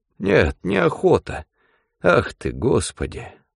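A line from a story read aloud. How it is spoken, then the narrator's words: Sighing old man. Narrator (Russian): вздохнул старик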